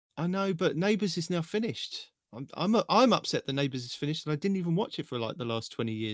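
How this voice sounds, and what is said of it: Usual voice. Nothing is said of it.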